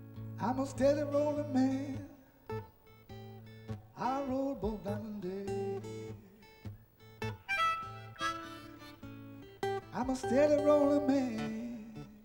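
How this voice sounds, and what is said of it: Put-on American accent, singing. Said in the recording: “my American accent”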